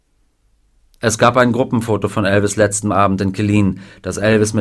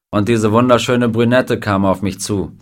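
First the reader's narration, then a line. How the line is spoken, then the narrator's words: Plain. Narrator (German): sagte Klein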